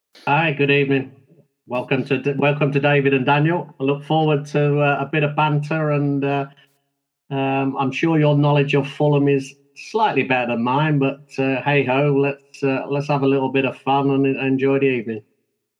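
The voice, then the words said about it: Mixed London and Yorkshire accent. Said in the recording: “The London accent and the Yorkshire is a little bit. Some people say I sound a bit Australian. ... Many a person have said you sound Australian”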